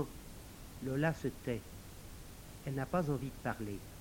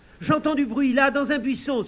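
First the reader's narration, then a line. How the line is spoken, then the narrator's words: Man exclaiming. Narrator (French): s'écrie l'un des hommes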